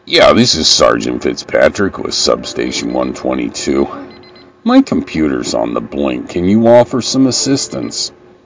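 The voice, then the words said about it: Imitates a police officer's voice. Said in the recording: “I impersonate a police officer like a motherfucker.”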